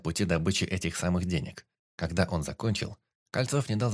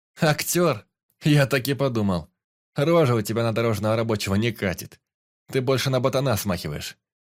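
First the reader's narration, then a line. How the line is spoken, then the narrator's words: Chuckling. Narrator (Russian): хохотнул Саня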